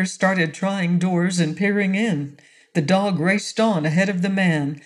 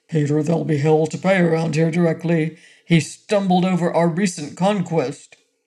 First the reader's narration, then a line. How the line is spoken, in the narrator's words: he said finally with a low growling voice